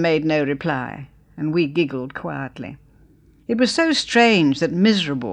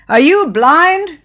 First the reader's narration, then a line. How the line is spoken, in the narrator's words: she bawled, point-blank into Clara's ear